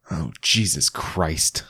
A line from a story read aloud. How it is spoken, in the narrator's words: snort filling up with rage